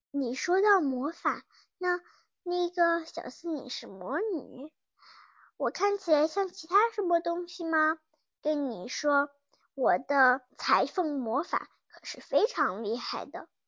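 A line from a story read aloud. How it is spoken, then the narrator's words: Quiet, apologetic. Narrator (Chinese): 又小声的说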